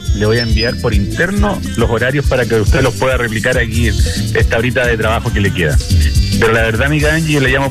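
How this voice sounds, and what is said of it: Deep radio announcer voice. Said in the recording (Spanish): “Una voz FM de repente ... Tiene voz de locutor”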